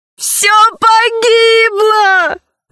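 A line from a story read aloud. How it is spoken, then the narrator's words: Sobbing louder. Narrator (Russian): зарыдала еще громче Заури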